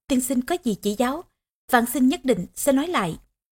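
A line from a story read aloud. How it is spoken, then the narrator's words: Smiling question. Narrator (Vietnamese): Bằng Thông mỉm cười hỏi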